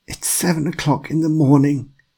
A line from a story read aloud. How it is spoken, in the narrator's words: croaked